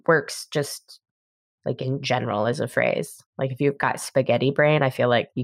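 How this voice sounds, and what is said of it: Usual voice. Nothing is said of it.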